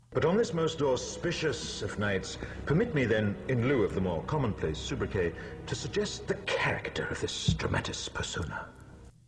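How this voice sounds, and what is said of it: Hugo Weaving impression, pretentious drama-club voice. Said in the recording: “my impersonation of Hugo Weaving as a pretentious drama club guy at an after school party”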